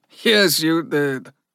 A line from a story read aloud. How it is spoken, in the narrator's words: chuckled